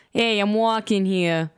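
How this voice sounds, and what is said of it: Put-on Brooklyn accent. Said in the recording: “Brooklyn accent.”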